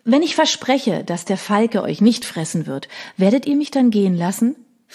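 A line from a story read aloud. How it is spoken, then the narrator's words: Plain. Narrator (German): fragte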